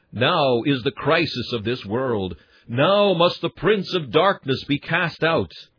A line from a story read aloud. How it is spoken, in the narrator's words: And Christ himself exclaimed